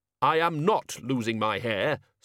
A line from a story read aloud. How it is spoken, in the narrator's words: snapped the Dean